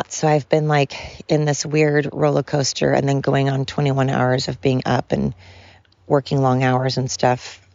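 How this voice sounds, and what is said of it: Worn-out, hoarse voice. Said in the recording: “my voice is shot, because I've also been working really long hours”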